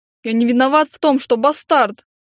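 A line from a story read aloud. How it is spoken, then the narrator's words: Snapped. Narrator (Russian): Огрызнулся он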